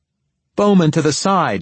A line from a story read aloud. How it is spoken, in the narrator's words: yelled one of the trailing runners